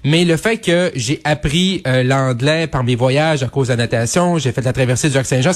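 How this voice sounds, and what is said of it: Lac Saint-Jean Quebec French accent. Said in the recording (French): “un fier bleuet du lac Saint-Jean qui a son accent”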